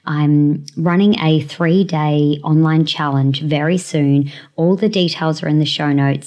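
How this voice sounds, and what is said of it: Voice sounds sick, slightly off. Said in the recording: “I have been a little bit sick, so if I sound a bit different, that's why”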